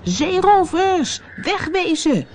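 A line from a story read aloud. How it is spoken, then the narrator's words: Called out. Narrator (Dutch): riep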